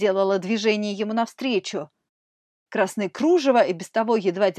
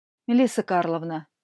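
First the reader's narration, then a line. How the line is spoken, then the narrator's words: Calm. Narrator (Russian): спокойно сказал император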